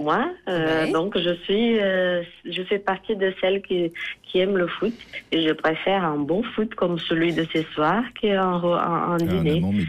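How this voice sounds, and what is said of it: Brazilian accent in French. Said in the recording (French): “j'entends votre accent brésilien”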